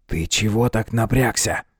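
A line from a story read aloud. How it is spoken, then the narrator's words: Whispered question. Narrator (Russian): Шепотом, попав под его настроение, спросил Оберт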